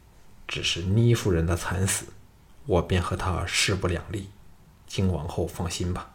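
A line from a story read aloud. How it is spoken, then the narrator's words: Hateful, through gritted teeth. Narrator (Chinese): 项少龙眼中射出了强烈的仇恨，咬牙切齿地说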